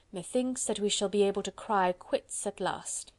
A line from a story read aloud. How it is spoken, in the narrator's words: muttered to himself